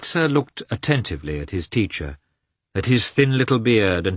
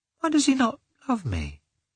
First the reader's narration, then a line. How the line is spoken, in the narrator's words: He asked himself, sadly